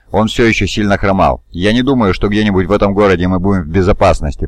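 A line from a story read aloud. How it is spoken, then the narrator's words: Grumbling. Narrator (Russian): проворчал Шир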